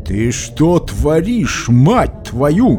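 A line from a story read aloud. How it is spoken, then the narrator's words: Growling. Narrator (Russian): прорычал Жозеф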